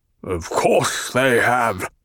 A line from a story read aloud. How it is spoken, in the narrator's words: the Baron rumbled